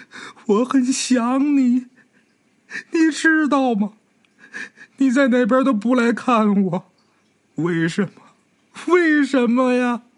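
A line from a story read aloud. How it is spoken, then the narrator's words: Bitter weeping. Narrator (Chinese): 这女同学哭得很惨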